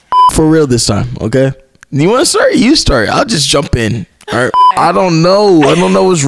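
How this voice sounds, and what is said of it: Usual voice. Nothing is said of it.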